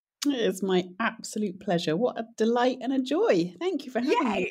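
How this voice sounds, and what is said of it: Lovely, refined-sounding accent. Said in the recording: “you have a lovely accent... I feel like we're going to have a very refined, lovely conversation”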